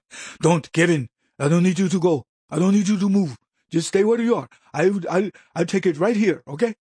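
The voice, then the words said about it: Put-on Indian accent. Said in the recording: “I didn't want to just do the Indian accent.”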